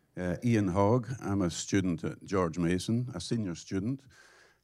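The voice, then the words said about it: British English accent. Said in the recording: “as you can tell from the accent, you know, I'm British”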